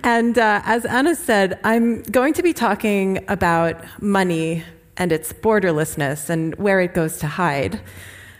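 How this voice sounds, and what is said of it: Foreign-accented English, Swiss speaker. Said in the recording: “my funny name and my accent ... I'm actually from Switzerland ... I lived 18 years in Geneva”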